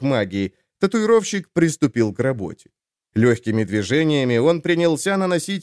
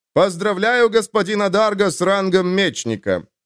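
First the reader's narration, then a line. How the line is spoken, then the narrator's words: Loud formal announcement. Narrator (Russian): громко произнес маг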